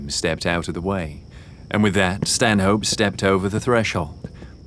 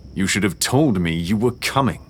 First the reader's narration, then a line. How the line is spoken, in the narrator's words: he practically growled